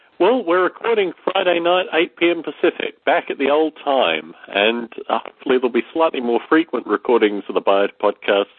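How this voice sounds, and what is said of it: Voice affected by a cold. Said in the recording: “As you may hear from my voice, I've had a slight cold”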